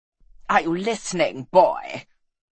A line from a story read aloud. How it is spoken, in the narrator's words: snarled the Baron